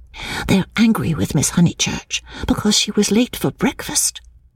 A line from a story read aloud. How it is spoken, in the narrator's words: whispered